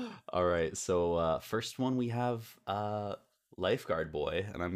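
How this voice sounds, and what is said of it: Usual voice. Nothing is said of it.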